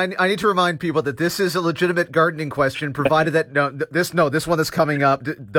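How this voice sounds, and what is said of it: Usual voice. Nothing is said of it.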